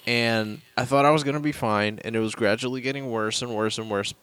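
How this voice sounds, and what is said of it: Sick, miserable-sounding voice. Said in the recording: “you probably hear it in my voice. I sound miserable because I got sick today.”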